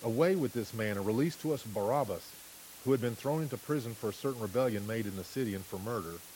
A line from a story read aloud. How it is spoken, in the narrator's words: they all cried at once, saying